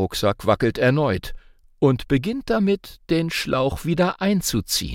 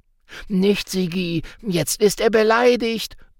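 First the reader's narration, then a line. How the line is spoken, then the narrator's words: Calling out. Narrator (German): ruft Hubert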